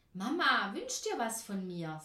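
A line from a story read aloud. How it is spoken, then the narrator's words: Plain. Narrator (German): sagte er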